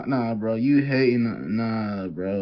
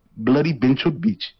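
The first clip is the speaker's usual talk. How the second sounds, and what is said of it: Weak put-on Indian accent. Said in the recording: “Your Indian accent needs work. It needs work.”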